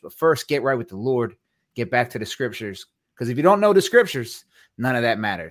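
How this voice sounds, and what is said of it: Strong accent, forceful intimidating delivery. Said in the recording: “I find your accent intimidating ... Some hear me like I'm screaming at them.”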